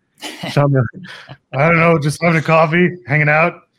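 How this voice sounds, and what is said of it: Imitates another person's voice. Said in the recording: “a good Shawn Michaels impression, I got to say. That's not bad.”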